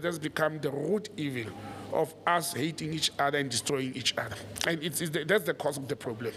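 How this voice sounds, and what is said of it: Unwell, below-par speaking voice. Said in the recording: “apologize for my voice today. If I don't sound as good as I always be, I'm not well”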